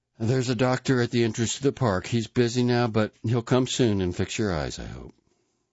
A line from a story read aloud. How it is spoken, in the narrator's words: Father Kleinsorge answered as cheerfully as he could